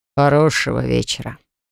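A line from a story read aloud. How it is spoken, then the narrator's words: Dry curt remark. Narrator (Russian): бросил только сухо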